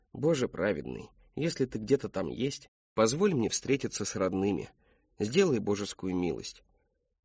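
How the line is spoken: Whisper. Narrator (Russian): Шептал он так

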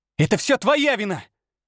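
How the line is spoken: Accusing shout. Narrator (Russian): выкрикнула она

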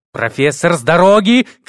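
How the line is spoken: Shout. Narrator (Russian): крикнул когтистый

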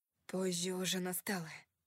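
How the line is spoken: Growled. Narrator (Russian): прорычал он

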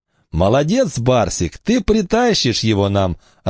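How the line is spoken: Cheerful. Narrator (Russian): радостно дополнил Цыпа

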